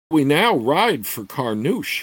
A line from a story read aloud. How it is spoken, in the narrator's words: asked